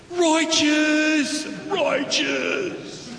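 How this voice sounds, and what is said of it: Surfer dude voice. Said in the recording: “in his best surfing voice ever ... Do your best surfer voice”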